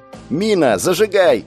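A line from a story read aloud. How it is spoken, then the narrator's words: Shouting again. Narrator (Russian): прокричал я повторно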